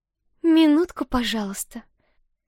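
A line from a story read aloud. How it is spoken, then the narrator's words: Sugary cooing voice. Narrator (Russian): елейным голоском проворковала Лера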